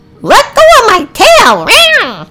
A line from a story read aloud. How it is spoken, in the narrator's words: Ceilia shouted